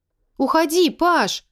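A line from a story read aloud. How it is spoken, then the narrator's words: Shout cracking into shriek. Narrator (Russian): крикнула я, и голос мой сорвался на визгливый, беззвучный выдох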